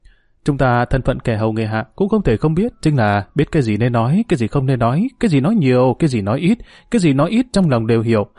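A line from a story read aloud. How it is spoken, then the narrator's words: Knowing smile. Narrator (Vietnamese): Tất Trần hiểu ý mỉm cười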